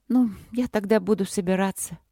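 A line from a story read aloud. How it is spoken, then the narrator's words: Sad. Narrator (Russian): сказала она грустно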